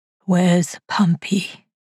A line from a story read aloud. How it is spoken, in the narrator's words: the static rasped